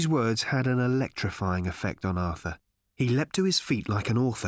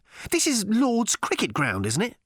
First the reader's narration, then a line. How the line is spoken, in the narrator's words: snapped Arthur